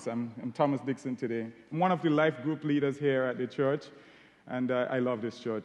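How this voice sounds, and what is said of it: Caribbean English accent. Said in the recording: “As you can tell from my accent, I'm Caribbean.”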